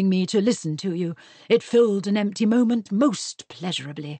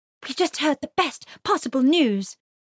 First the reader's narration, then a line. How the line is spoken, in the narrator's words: she gasped